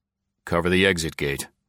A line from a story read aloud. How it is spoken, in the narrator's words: muttered Barnes